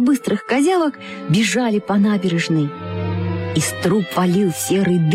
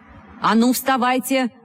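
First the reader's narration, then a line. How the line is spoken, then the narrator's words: Shout. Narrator (Russian): крикнул он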